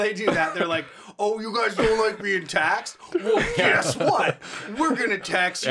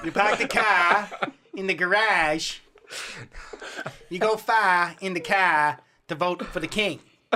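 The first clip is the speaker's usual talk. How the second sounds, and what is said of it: Put-on Boston accent. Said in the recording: “Bostonians, you're allowed to beat me up when you see me for this accent. ... If our accents are at all inaccurate”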